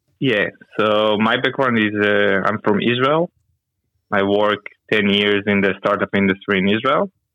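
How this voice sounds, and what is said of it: Strong foreign accent in English. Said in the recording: “you've got a magnificent accent”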